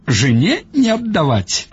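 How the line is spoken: Old man, laughing. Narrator (Russian): сказал старик и засмеялся

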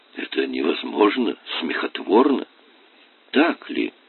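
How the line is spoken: Soft. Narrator (Russian): мягко произнес Грейл

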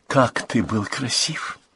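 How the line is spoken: Whispered. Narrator (Russian): зашептала она

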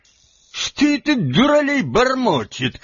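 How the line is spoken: Shouted. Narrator (Russian): крикнул он наконец

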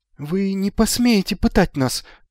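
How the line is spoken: Thin high voice. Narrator (Russian): тонким голосом сказал Магнан

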